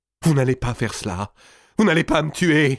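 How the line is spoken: Exclaimed. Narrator (French): s'écria-t-il

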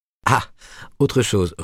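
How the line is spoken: Resumed, laughing. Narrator (French): reprit-elle en riant aussi

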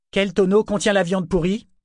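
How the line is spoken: Roaring. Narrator (French): rugit

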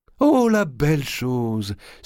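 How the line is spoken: Exclaimed. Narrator (French): s'écria-t-elle

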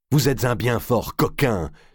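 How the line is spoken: Exclaimed. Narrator (French): s'écria Jean de Marigny

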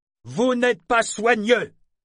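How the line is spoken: Innkeeper shouting. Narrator (French): cria l'aubergiste

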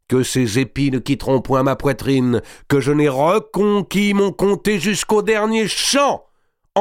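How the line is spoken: Ringing loud voice. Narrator (French): dit-il d'une voix éclatante

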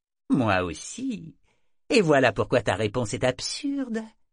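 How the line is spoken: Cheerful small voice. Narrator (French): fit le petit visage d'un ton enjoué

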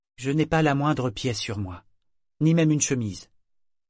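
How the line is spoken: Plain. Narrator (French): répondit Yémin

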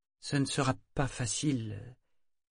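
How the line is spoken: Hesitant voice. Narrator (French): fit Kefria d'une voix hésitante

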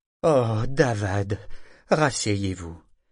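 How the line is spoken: Weary elderly woman. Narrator (French): avait répondu grand-mère d'un ton las

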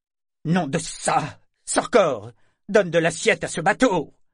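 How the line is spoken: Roaring to hide humiliation. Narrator (French): rugit-il pour cacher son humiliation

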